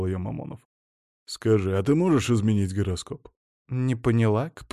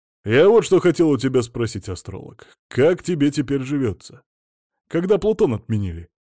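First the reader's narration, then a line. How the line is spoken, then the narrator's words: Snide, mocking. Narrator (Russian): ехидно добавил Сила Игнатьевич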